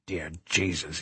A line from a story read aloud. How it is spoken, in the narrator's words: he whispered